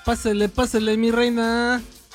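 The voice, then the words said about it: Sing-song Mexico City street accent. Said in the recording (Spanish): “acento enfadoso ... el acento chilango es muy enfadoso ... así te lo cantadito”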